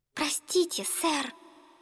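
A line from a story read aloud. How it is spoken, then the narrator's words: Timid whisper. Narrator (Russian): она робко прошептала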